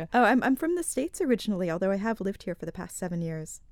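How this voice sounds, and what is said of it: American accent. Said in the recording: “that's not a Manx accent there”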